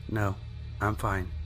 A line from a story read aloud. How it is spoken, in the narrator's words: So timidly I replied